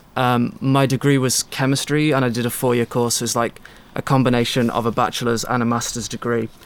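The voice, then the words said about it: Mixed British regional accent. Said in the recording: “I'm from the UK, and any British people listening would recognize my accent's a little bit weird because I kind of lived in different pockets of United Kingdom.”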